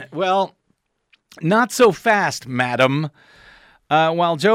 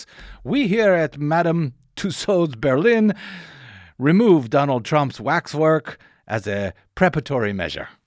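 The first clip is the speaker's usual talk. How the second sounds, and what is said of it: Put-on German accent. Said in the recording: “Is that your German accent? ... Yeah. It's pretty good, wasn't it? ... It was something.”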